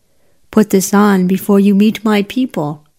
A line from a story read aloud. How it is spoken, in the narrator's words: said